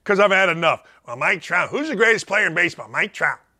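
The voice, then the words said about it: Loud, screaming rant. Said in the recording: “you see I'm loud here? See I'm screaming here?”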